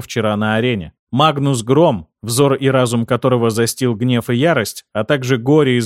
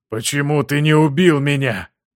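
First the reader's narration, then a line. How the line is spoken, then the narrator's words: Hoarse rasp. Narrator (Russian): прохрипел он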